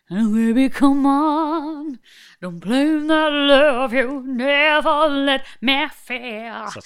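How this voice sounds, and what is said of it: Sung imitation of another person's voice. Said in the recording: “She genuinely sounds like she's eating a Yorkshire pudding ... doing an Anastasia impression”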